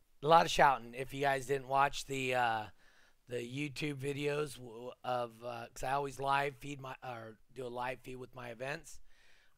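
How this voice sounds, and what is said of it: Hoarse, strained voice. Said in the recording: “my voice is a little toasty from this weekend. ... So, a lot of shouting.”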